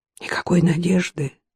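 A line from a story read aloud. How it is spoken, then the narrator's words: Whisper. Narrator (Russian): он прошептал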